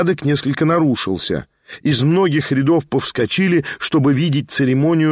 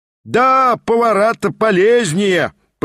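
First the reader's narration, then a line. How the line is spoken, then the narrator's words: Shouted. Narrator (Russian): прокричал тот самый семинарист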